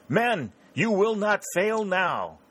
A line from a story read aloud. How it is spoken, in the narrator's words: Gordon cried